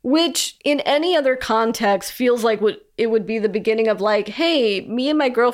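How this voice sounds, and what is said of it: Usual voice. Nothing is said of it.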